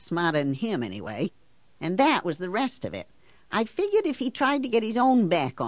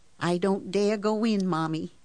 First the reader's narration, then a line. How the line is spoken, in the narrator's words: she said, and her voice was trembling